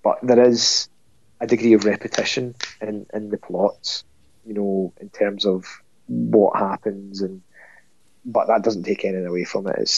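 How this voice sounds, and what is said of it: Congested, cold-affected voice. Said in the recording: “Hopefully next time I won't have a cold either. I'll sound less manly.”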